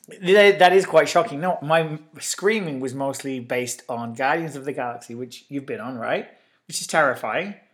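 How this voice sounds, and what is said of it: Hoarse, partly lost voice. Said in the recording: “I've kind of lost my voice a little bit from my my escapades in Disneyland. ... It's been gone all week. ... I screamed a lot.”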